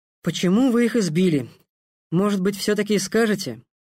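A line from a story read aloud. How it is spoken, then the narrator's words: Disgustingly calm. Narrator (Russian): до омерзения спокойно произнес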